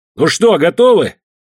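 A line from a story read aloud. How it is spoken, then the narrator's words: Barking. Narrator (Russian): рявкнул я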